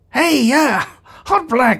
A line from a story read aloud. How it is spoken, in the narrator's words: called out